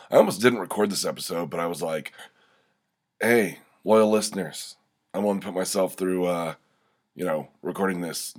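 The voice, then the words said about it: Deep, scratchy congested voice. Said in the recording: “My voice has dropped about an octave, and my throat's a little scratchy. I've got a bit of a head cold.”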